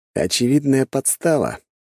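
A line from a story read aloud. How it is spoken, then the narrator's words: Smirking snort. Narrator (Russian): хмыкнул я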